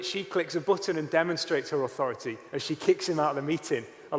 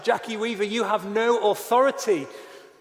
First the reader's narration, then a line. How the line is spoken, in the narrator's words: He famously shouted at her